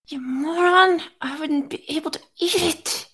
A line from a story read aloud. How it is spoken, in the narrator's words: he whispered